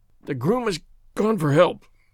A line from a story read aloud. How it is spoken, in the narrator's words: groaned the sufferer